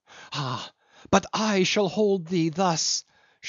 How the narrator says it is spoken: she cried

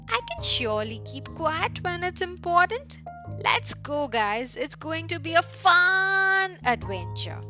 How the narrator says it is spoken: Tim laughed and said

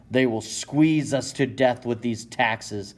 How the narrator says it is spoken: you groan

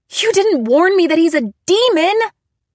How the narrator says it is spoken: I screamed

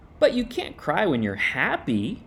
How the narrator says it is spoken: said Little Rabbit

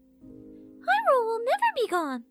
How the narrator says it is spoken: Navi exclaimed

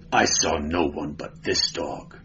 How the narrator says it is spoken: growled Conan

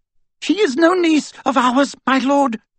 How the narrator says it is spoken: she cried over the outpouring of mirth

